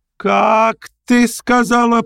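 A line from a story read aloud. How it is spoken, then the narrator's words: Mother's stifled shriek. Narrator (Russian): приготовилась было опять взвизгнуть мамаша, но вдруг осела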